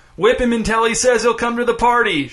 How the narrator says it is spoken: shouted Reggie

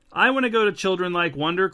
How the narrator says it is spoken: cried Nora

